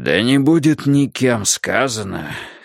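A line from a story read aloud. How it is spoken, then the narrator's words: Hoarse. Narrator (Russian): хрипло произнес магистрат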